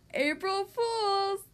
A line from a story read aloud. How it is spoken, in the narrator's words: yelled